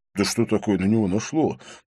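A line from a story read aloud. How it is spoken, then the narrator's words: Muttered. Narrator (Russian): пробормотал Винсент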